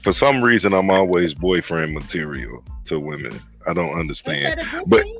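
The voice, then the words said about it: Deep male voice. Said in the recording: “It's a deep voice. It's a deep voice. ... It's definitely the voice.”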